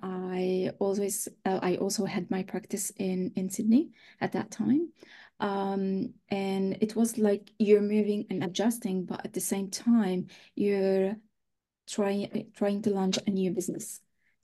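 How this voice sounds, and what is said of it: Slight French accent. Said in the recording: “there might be a little bit French accent ... you do have a French accent”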